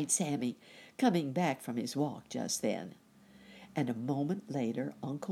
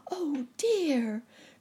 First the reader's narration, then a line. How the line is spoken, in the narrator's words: cried Nurse Jane